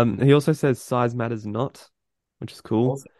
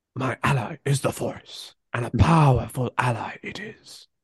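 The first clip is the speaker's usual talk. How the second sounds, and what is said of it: Imitates another character's voice. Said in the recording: “Well, that was a good impression. ... I didn't think it was that good at all”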